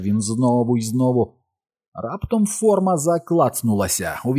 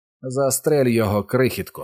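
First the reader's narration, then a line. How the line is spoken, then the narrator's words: Calm, almost carefree voice. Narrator (Ukrainian): сказав абсолютно спокійним, мало не безтурботним голосом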